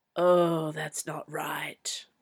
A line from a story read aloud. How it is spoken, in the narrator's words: muttered Jack